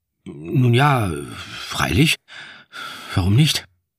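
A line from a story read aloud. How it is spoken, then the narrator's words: Hesitant reply. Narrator (German): entgegnete ich zögernd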